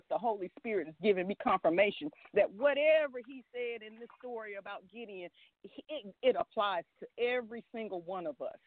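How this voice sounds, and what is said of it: Excited, shaking voice. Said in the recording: “I'm so excited right now. I don't know if you guys can hear it in my voice, but I am shaking”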